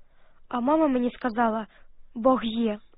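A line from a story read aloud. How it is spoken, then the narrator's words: Whispering to herself. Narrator (Ukrainian): Таня сама собі прошепотіла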